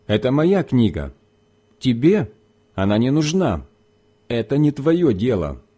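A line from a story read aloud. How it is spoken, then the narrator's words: Sharp reply. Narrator (Russian): Но она резко ответила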